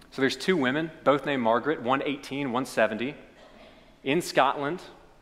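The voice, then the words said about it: Kentucky Lexington accent. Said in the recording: “I'm going to do it in my Lexington accent.”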